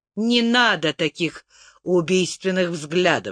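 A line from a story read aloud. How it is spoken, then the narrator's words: Plain. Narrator (Russian): сказал Тирль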